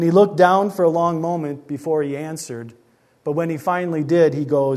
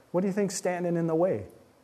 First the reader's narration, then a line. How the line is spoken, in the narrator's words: I asked him gently